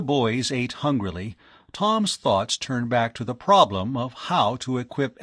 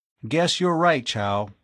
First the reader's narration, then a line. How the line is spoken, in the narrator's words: he said with a chuckle